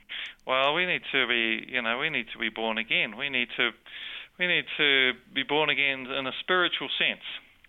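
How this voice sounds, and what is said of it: New Zealand accent. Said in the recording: “You speak with an accent... I have a New Zealand accent”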